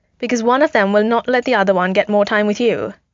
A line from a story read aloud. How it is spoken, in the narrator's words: Natasha said impatiently